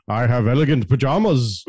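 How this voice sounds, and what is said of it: Imitates another person's voice. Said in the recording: “My Christopher Lee impression is very specific”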